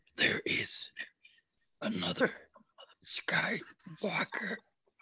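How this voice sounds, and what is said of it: Yoda character voice impression. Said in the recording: “Here's Yoda ... Here's Yoda from Return of the Jedi.”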